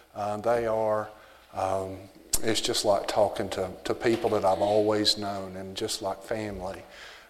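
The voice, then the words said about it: Strong American Southern accent. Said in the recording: “my accent, my southern accent ... I still have the strong accent”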